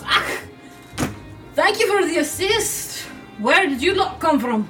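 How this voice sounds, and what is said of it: Attempted Scottish dwarf accent. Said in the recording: “I can't do Scottish accents, so I'm not even going to try ... That was better than your not Scottish one before.”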